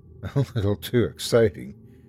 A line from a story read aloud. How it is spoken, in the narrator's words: Amy said with a laugh